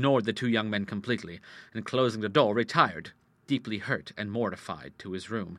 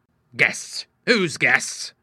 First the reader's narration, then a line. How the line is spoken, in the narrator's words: he cried angrily